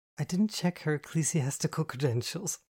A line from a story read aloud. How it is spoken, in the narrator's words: I laughed